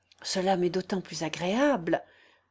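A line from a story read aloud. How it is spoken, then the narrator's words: Joyful, elated stammering. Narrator (French): balbutia Julie Mikhaïlovna sous l'influence d'une sorte de transport joyeux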